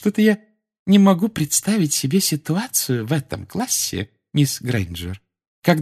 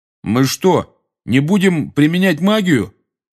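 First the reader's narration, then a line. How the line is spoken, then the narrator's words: Loud question. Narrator (Russian): громко спросил Рон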